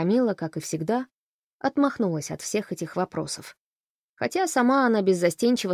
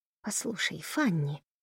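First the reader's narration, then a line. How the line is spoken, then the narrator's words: Whispered. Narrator (Russian): прошептала Камилла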